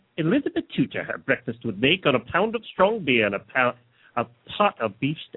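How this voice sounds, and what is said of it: Put-on old English accent. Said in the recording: “I can give you the old English accent.”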